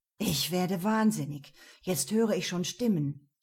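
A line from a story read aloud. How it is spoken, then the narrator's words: Groaning. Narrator (German): stöhnte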